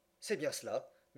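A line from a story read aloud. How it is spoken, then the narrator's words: Murmured. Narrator (French): murmura Passepartout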